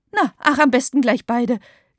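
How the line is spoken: Giggling. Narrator (German): kichert Frau Schmiedinger

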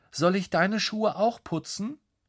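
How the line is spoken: Calling out. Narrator (German): ruft Lukas

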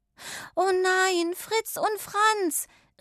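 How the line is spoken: Called out. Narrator (German): rief sie

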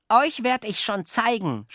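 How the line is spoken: Shouting. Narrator (German): schrie Jockel den Spatzen zu

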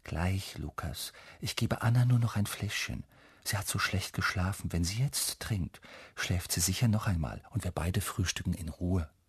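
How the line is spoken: Mother whispering. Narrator (German): Mama flüstert

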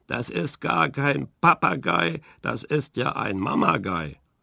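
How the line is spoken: Squawked discontentedly. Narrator (German): Unzufrieden rückte er ans äußerste Ende der Stange und krächzte

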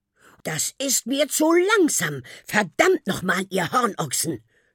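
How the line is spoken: Snapped. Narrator (German): schnauzte der Teufel

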